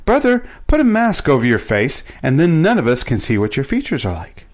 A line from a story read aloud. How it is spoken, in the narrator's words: he called out